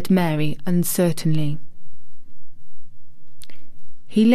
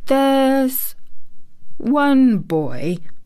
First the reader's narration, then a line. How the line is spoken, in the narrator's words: he said quite slowly, as if he were thinking over every word